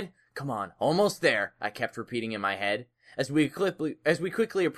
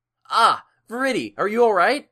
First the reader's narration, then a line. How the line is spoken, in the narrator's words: I exclaimed